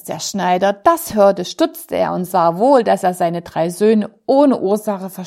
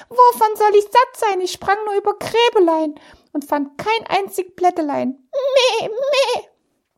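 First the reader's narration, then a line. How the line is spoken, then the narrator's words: Goat calling out. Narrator (German): die Ziege rief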